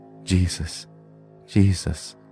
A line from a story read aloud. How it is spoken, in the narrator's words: I then said softly